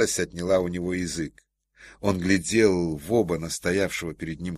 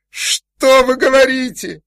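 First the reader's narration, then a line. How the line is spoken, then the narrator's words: Shouted. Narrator (Russian): закричал майор Ковалев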